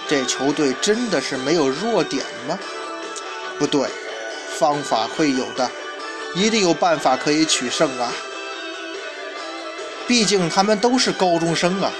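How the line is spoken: Muttering to self. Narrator (Chinese): 在嘴中喃喃自语

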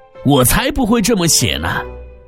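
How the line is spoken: Lion's roar. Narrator (Chinese): 狮子大吼

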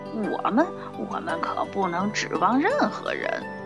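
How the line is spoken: Sleepy grumbling mutter. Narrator (Chinese): 门房太太睡着了，不过她还嘟嘟囔囔地发着牢骚

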